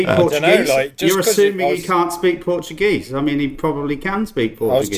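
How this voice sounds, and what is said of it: Usual voice. Nothing is said of it.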